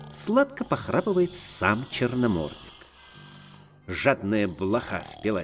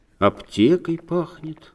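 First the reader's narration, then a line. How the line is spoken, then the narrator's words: Plain. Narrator (Russian): говорит тонкий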